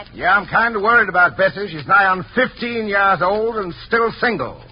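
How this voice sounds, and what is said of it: Put-on Ozark hillbilly dialect. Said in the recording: “the scene opens in the Ozark Mountains ... you play the part of Paw Hawkins, a typical hillbilly. Do you think you can handle a dialect?”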